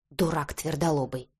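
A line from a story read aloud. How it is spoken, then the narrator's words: Muttering under breath. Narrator (Russian): бормотала себе под нос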